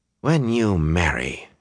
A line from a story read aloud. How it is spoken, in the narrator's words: said in a tight voice